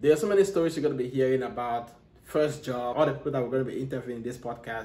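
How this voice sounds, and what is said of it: Strong Cameroonian accent. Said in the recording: “that's an accent, that's a strong accent. ... I'm from Africa, you know, I'm from Cameroon”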